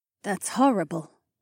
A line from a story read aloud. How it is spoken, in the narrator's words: Mila said in a quiet voice